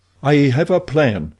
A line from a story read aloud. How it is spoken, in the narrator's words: he cried